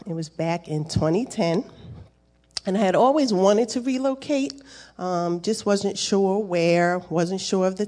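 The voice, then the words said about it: New Jersey East Coast accent. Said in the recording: “I'm from the great state of New Jersey. And you will hear it in my voice as I talk... It's the East Coast accent”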